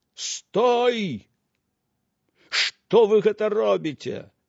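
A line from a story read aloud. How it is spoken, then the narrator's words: Shout from afar. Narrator (Belarusian): яшчэ здалёк закрычаў каўбой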